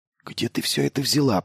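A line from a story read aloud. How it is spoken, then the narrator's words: Whisper. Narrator (Russian): прошептал Майлз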